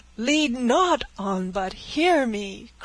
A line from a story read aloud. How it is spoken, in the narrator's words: cried Francis